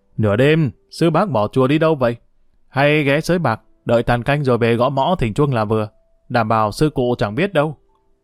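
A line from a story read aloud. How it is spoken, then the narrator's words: Mocking sarcastic voice. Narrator (Vietnamese): gã thấp hơn nói với giọng đầy mỉa mai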